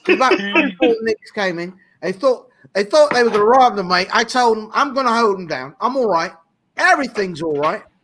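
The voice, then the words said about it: Put-on Cockney accent. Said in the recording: “I didn't know you had a UK accent as well. ... that's called Cockney.”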